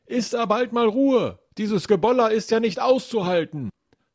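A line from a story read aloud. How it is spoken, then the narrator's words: Bellowing down from above. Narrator (German): nach unten brüllt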